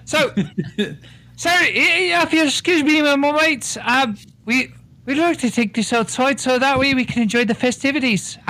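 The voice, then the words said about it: Put-on Irish accent. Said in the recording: “You go right back to your Irish accent.”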